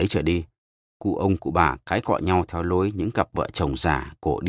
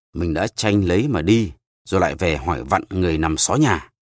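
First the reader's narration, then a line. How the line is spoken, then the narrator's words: Old man snapping irritably. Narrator (Vietnamese): Cụ ông nhăn mặt lại gắt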